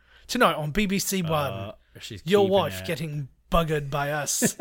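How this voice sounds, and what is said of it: Put-on British accent. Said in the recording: “I'm really good at my accents.”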